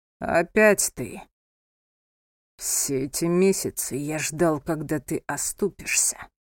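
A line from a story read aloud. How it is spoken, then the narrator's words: Hissed through clenched teeth. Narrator (Russian): стиснув зубы, прошипел Александр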